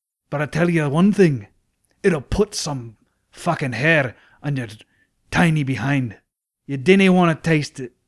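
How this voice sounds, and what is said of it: Put-on Scottish accent. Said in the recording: “This is the longest I've ever tried to hold a Scottish accent”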